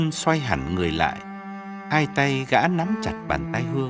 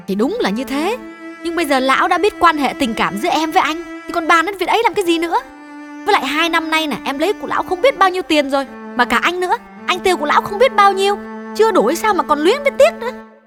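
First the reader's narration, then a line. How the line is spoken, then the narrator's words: Loud angry interruption. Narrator (Vietnamese): Hương chưa nguôi giận, lớn tiếng ngắt lời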